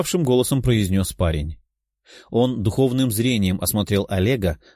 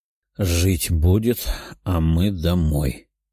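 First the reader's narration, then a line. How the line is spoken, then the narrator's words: Tired voice. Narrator (Russian): уставшим голосом произнес парень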